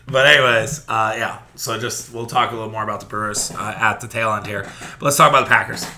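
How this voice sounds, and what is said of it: Squeaky, strained voice. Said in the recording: “I'm squeaking through half this podcast because my voice is not where it needs to be”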